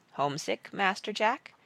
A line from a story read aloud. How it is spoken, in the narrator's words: asked Praiseworthy in a quiet voice